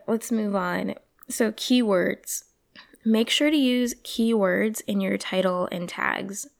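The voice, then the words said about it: Hoarse voice. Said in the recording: “sorry about my voice. Feeling very hoarse.”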